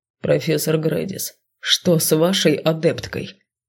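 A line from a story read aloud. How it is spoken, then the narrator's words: Stern question. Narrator (Russian): Грозно спросил он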